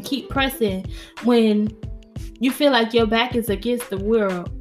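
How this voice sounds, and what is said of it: New York accent slipping out. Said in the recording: “My New York accent came out.”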